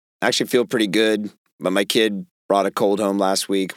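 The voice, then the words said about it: Raspy, hoarse voice. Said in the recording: “my voice is shot ... it's sitting right on my vocal cords right now ... my voice is raspy”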